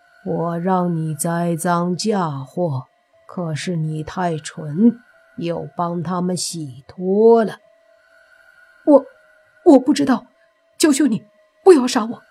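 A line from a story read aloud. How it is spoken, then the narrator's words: Cold snort, flat. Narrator (Chinese): 风衣人冷哼一声，淡淡的说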